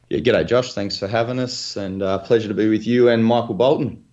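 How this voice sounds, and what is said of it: Australian accent. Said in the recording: “everybody can tell by ... accent he is uh, he is here from Australia”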